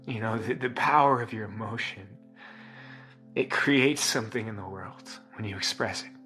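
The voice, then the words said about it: Choked-up, emotional voice. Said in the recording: “I'm emotional as I say that. ... I'm getting choked up”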